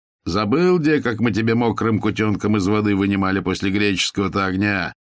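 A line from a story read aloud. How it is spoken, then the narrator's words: Shouted mockingly. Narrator (Russian): Тот же Рагнар обидно и крикнул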